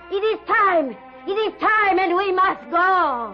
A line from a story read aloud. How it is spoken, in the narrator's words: suddenly, Ilse's mother shouted